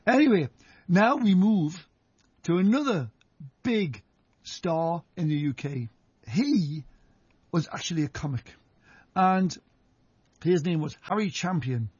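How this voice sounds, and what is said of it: Geordie accent. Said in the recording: “my Geordie accent”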